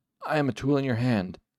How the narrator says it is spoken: gasped

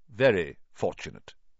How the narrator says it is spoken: he said stiffly

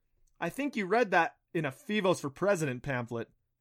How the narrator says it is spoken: Adam laughed

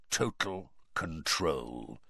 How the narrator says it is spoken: said Moody quietly

